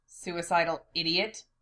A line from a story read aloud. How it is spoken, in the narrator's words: Gene manages to mutter, even through his pounding headache